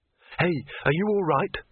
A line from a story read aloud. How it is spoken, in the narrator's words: said Rincewind urgently